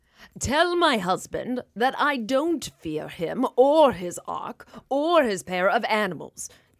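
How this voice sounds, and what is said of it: Cate Blanchett impression. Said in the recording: “Kate Blanchett ... That's one of those impersonations you don't think to do.”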